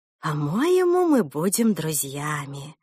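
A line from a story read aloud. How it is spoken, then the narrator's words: Warm intimate whisper. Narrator (Russian): задушевно прошептала Мод Ворсу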